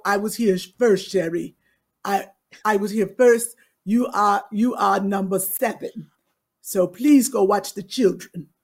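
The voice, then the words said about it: Put-on African accent. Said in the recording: “What dialect was that ... It was African ... It was close to South African.”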